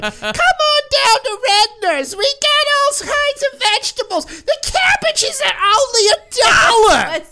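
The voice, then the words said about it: Old lady grocery commercial voice. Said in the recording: “You sounded like an old lady doing commercials for a grocery store.”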